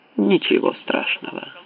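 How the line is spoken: Calm. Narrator (Russian): опять сказал Уоррен спокойно

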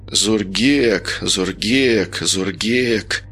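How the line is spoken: Mumbled. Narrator (Russian): пробормотал Женя

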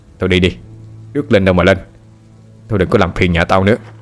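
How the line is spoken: Sharp scolding. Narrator (Vietnamese): Chú quát nó

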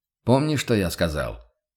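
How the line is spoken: Stern. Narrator (Russian): отдернул Курт строго

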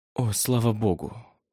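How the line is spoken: Relieved exhale. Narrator (Russian): выдохнула Дэвин

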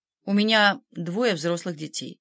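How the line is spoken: Cold reply. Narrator (Russian): холодно ответила

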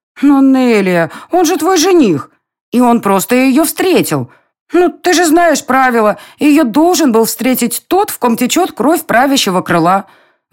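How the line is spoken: Exclaimed. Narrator (Russian): воскликнула Милена

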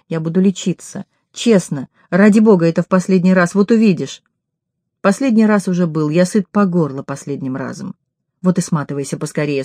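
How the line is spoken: Calm. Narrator (Russian): спокойно сказала

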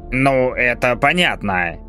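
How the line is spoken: Deep bass voice. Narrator (Russian): пробасил король

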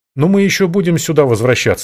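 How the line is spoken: Snorted. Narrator (Russian): хмыкнул я

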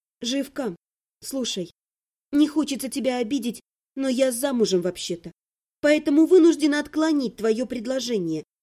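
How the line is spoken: Soft, slightly regretful. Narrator (Russian): мягко сказала я, добавив в голосе талику сожаления

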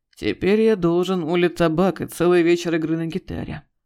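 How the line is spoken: Sigh. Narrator (Russian): вздохнул Игорь

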